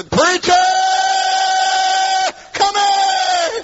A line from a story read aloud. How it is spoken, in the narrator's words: hollered and I said